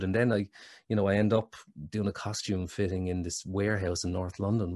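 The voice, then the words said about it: Irish accent. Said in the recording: “oh God, you're Irish ... my accent”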